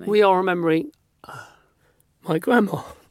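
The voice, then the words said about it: Emotional, wavering voice. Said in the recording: “I got all emotional then ... My voice went all funny.”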